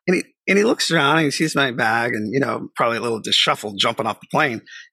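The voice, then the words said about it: Strong Boston accent. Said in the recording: “my strong Boston accent is extremely strong”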